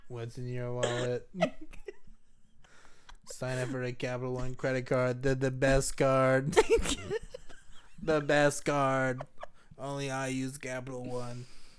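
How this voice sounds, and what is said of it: Donald Trump impression, ad voice. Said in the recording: “Like Trump doing like a Capital One ... I can't even focus on his accent.”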